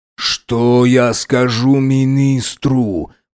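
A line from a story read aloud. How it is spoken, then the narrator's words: Moan. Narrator (Russian): простонал Фазиль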